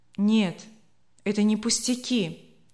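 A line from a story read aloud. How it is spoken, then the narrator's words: Sad. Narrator (Russian): грустно сказал Леня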